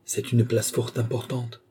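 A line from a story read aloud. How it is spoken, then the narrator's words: Murmur. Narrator (French): murmura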